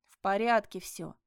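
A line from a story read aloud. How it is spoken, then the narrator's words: Barked. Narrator (Russian): гаркнула я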